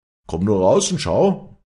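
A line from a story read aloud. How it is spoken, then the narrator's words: Called out. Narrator (German): rief Leander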